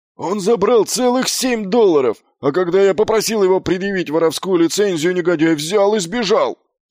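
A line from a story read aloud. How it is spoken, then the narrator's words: Yelling. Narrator (Russian): завопил Фланнель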